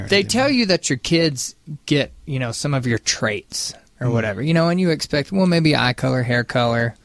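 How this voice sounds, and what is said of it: Southern American accent. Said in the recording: “my sort of southern accent”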